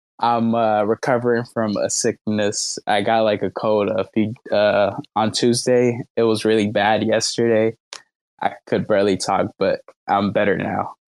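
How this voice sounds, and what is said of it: Slightly raspy voice. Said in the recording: “my voice sounds a bit raspy.”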